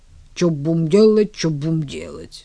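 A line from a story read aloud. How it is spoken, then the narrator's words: Grumbling. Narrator (Russian): проворчал ангел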